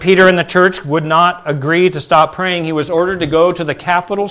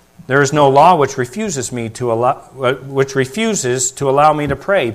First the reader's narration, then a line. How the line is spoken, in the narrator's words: Peter answered calmly